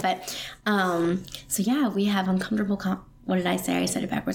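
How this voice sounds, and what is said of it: Strained, lowered sick voice. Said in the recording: “I am sick today ... my voice is strained ... I'm talking lower because my voice hurts ... if I sound funny ... cold”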